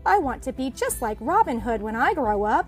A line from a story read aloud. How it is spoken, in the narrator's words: exclaimed Skippy Rabbit